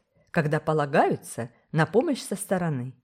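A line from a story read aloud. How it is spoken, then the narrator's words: Grumpy, quarrelsome tone. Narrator (Russian): сказала Олив Керк сварливым тоном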